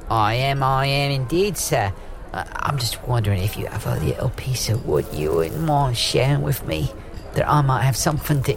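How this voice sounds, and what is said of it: Put-on Cockney-style accent. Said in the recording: “your accent and what class you are ... You noticed my cock ring accent ... One of the things about a cock ring accent”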